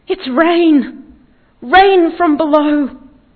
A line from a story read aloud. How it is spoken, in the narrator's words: he cried out